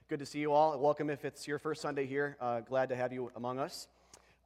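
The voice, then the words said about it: Sick-sounding voice. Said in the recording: “forgive my voice today. I'm getting over a little bit of a cold”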